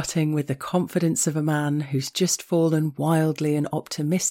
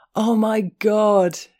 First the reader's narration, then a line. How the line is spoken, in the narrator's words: he howled